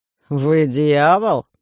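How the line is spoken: Irritated werewolf. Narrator (Russian): раздраженно скривил губы оборотень

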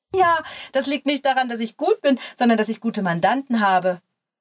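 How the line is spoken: Laughing reply. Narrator (German): entgegnete lachend

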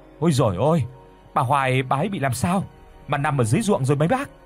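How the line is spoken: Sudden cry. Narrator (Vietnamese): Bỗng có người la lên

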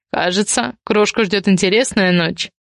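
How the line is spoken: Amused snort. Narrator (Russian): хмыкнул Ивар

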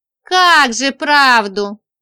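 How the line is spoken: Contemptuous snort. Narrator (Russian): презрительно фыркнула Женька

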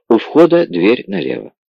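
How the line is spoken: Quiet, confidential. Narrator (Russian): Бармен негромко доверительно сообщил

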